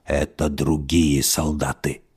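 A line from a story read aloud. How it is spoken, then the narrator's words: Quiet monster reply. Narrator (Russian): тихо ответил монстр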